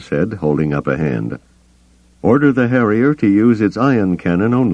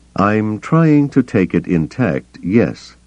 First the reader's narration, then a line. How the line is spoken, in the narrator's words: Bel Iblis said slowly